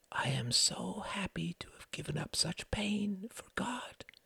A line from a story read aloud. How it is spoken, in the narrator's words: she whispered